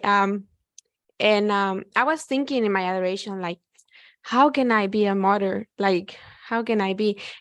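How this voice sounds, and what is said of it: Non-native English accent. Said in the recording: “Sorry for my accent sometimes. ... Your ESL is beautiful.”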